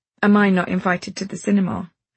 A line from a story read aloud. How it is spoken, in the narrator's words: he asks